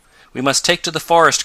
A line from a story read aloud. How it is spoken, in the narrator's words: cried Tom